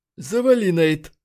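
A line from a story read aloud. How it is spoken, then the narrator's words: Hoarse voice. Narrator (Russian): хрипло произнес Бёрнс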